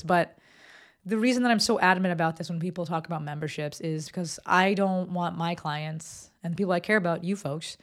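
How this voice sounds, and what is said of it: Strained, fading voice. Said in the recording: “my voice is going”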